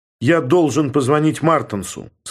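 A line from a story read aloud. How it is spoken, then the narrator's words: Plain. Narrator (Russian): сказал я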